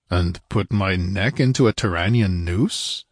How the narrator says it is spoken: he grunted

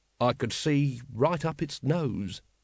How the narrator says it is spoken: said Captain Vimes dreamily

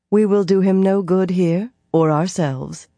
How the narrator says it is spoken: Cadswain said calmly

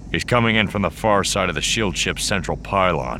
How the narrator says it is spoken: told her grimly

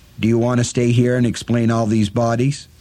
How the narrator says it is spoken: the gunslinger asked

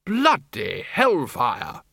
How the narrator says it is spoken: said the Arch-Chancellor

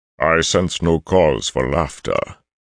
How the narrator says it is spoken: Arthur rumbled

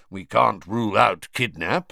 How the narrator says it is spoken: growled Moody

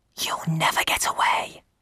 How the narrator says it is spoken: whispered Roland

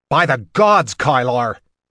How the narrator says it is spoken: Logan shouted

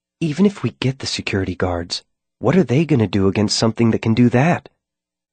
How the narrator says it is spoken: Molly leaned in close to me to whisper

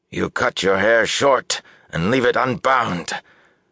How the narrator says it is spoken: Bukama spat the words

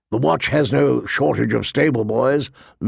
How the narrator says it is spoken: Lord Mormont grumbled

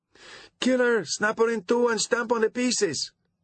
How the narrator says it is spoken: howled the downright nasty audience members

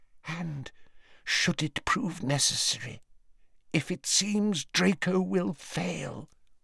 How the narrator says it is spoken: whispered Narcissa

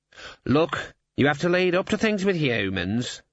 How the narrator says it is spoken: said the raven, wearily

